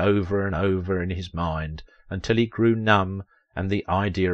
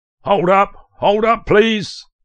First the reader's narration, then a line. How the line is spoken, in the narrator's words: shouted a man as he ran